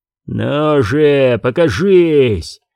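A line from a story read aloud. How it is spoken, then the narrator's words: Frustrated growl. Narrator (Russian): зарычал Зиновьев, расстроенный тем, что опять теряет время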